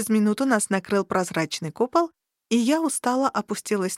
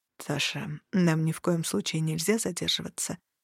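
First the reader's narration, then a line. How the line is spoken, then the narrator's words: Quiet. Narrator (Russian): тихо сказал Серт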